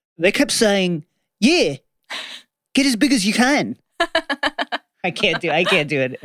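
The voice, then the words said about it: Put-on Australian accent. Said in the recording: “Australian accent.”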